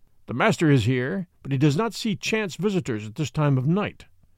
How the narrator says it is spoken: growled the other

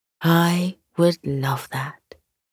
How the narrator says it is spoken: says

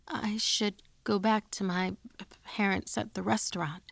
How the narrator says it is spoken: I stammered

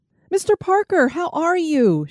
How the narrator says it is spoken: squealed

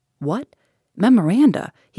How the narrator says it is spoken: exclaimed

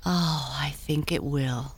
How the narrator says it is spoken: sighed Tinkle

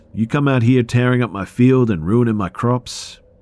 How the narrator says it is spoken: through rotten and missing teeth, shouts

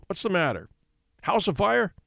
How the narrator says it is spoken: he grunted

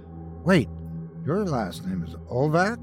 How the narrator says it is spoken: Derek saying to Boris in a worried tone

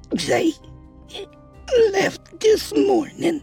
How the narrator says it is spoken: she croaked out

